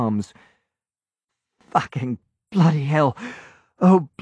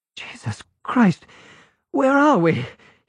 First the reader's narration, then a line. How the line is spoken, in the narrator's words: He gasped